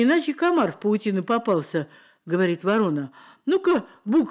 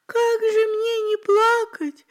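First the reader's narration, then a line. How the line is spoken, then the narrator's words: Louder shrill squeak. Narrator (Russian): Еще пуще запищала буква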